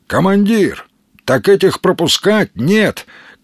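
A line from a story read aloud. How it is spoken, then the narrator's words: Shouting after someone. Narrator (Russian): крикнул ему вдогонку пулеметчик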